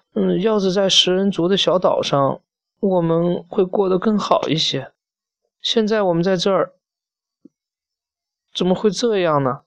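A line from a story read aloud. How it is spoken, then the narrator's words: Weeping. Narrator (Chinese): 可怜的萨利斯特哭泣着说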